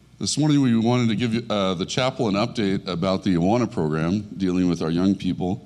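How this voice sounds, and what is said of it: Deep, sick-sounding voice. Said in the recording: “You can be impressed with my deep voice due to my coughing and bronchitis.”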